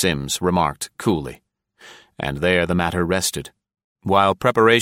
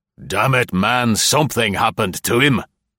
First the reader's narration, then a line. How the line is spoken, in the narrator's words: the captain snorted impatiently